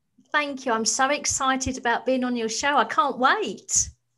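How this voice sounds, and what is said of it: British accent. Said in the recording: “you're in the UK and you have your beautiful accent ... It's so different.”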